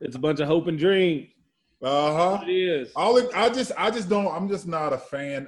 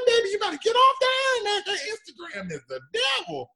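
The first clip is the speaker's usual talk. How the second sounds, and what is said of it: Imitates a grandmother's voice. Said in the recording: “I sound like my grandma. I sound like your grandma,”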